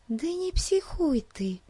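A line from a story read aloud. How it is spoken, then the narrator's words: Whisper. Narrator (Russian): прошептала Бетси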